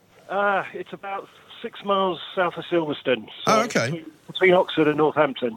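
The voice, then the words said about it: Slightly out of breath. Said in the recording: “I'm slightly out of breath because I've just been digging the garden”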